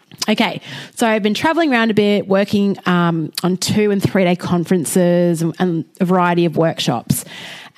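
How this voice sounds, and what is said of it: Slightly husky voice. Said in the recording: “my voice is a touch husky this week”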